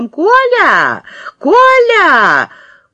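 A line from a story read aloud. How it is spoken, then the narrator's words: Thin high shout. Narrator (Russian): закричала в окно тоненьким голосом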